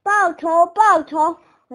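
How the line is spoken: Shouting. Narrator (Chinese): 他喊道

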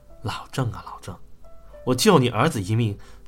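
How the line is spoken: Sighing inner thought. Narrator (Chinese): 要来叹了口气，心说

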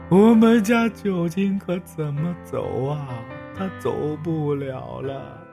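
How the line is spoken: Crying. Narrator (Chinese): 周母哭着说

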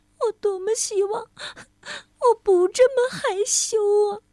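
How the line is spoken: Sobbing. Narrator (Chinese): 她抽泣着

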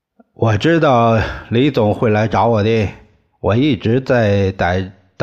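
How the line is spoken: Breathless, relieved. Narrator (Chinese): 他仿佛死里逃生似的，大口喘气，对李光头的两个手下说

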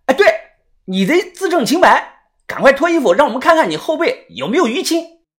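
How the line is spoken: Loud, immediate. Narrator (Chinese): 豆芽仔立即大声的说

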